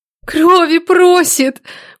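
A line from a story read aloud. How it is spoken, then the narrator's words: Moaning. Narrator (Russian): простонала Нелада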